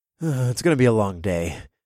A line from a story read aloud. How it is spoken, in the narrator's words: I sighed